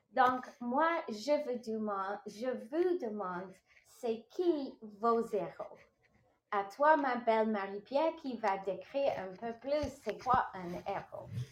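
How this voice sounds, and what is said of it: French with an English accent. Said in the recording (French): “t'as le même accent que Maria un peu. Donc, toi aussi, des fois, ça sonne comme zéro... c'est l'accent anglais qui fait les deux mots ensemble... C'est le petit côté anglophone”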